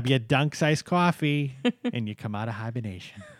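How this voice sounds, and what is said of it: Put-on Boston accent. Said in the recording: “That's the Boston accent in your head.”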